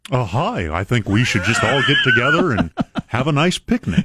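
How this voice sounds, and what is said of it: Governor Bennett impression, cartoon-bear voice. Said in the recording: “do your Governor Bennett voice ... He does sound like a cartoon bear”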